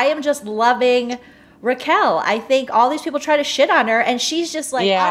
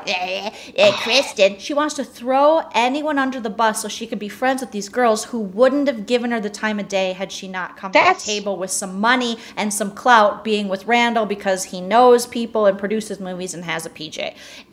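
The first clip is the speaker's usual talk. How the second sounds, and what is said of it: Imitates another person's voice. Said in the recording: “This is my impression of Lala.”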